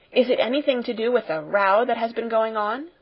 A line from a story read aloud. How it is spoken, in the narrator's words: said Lavinia eagerly